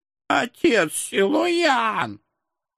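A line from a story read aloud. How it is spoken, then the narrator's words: Offended old women wailing together. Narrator (Russian): Обиженным дуэтом взвыли бабки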